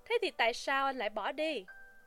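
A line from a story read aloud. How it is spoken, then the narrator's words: Smiling. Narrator (Vietnamese): McMurdo lại mỉm cười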